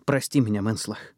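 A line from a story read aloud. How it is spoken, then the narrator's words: Breathed out. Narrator (Russian): выдохнула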